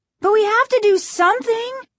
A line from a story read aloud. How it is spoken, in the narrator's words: Margaret cried